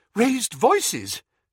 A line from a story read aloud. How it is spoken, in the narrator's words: panted Mrs